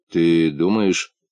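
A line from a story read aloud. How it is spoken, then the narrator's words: Uncertain question. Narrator (Russian): неуверенно спросил муфта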